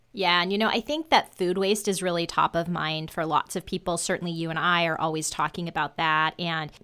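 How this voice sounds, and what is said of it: Usual voice. Nothing is said of it.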